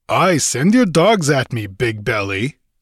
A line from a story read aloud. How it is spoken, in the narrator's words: sneered Conan with bitter scorn